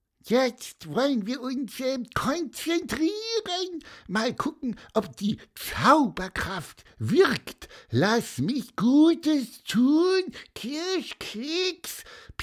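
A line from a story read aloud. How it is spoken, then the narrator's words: Squeaky while chewing. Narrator (German): piepste er und kaute weiter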